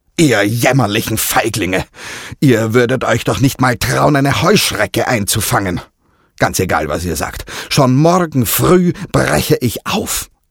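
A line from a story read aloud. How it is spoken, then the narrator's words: Angry retort. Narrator (German): entgegnete wütend Don Juan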